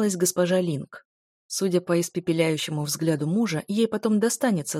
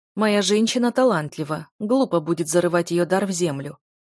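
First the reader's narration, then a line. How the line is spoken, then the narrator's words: Amused ironic snort. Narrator (Russian): господин Джай хмыкнул от скрытой иронии фразы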